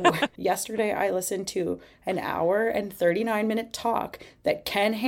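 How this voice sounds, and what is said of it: Usual voice. Nothing is said of it.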